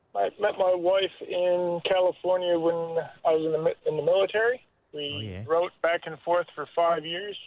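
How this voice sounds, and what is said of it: American accent. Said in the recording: “Ooh, an American. ... American accent?”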